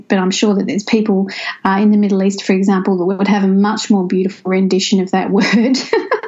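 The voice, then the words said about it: Australian accent. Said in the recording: “clearly have an Australian accent”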